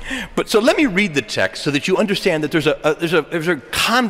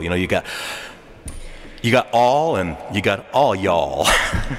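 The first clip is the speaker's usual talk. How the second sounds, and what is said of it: Put-on southern US accent. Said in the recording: “I'm going to sort of use a little my southern accent, and in the deep south”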